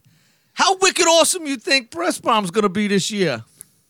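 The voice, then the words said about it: Weak attempt at Boston accent. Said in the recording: “Is that your attempt at a Boston accent? ... that's the best I could do”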